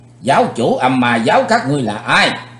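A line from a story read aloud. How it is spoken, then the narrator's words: Loud shout. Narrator (Vietnamese): Chàng hét lớn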